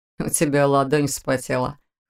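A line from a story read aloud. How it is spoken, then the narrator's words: Snorting. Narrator (Russian): хмыкнул Вион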